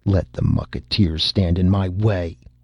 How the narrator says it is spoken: he said fiercely

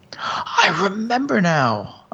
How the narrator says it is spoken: I replied rather sharply

